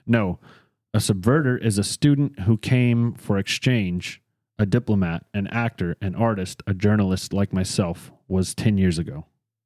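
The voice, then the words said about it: Russian accent. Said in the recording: “this is where the Russian accent takes over”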